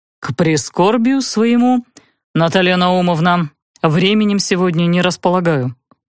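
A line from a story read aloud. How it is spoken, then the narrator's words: Deep bass voice. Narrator (Russian): пробасил он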